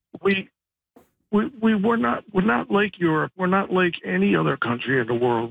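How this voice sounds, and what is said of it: Impaired, atypical speaking voice. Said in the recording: “Excuse my voice. I have a serious disability.”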